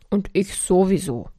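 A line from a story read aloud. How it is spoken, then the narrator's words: Loud angry grumble. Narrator (German): brummte die laute Wut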